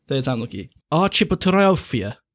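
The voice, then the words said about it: Put-on Eastern European accent. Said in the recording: “I'm giving it like an Eastern European accent”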